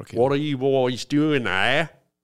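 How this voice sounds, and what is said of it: Attempted South African accent. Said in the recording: “I think the toughest one's got to be South Africa. Because that one's got a mixture of British, Australian, ... New Zealand ... even when I try to do it, it becomes Australian ... I can't even get my head around a South African accent ... South African.”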